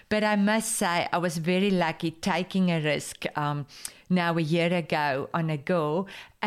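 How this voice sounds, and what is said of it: Afrikaans-accented English speech. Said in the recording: “she cannot understand Afrikaans ... She understands my accent”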